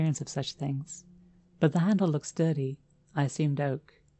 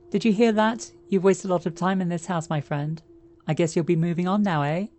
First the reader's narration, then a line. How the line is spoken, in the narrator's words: I then continued to laugh like a maniac